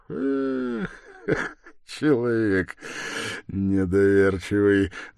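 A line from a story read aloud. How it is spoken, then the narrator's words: Laughing. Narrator (Russian): засмеялся Свидригайлов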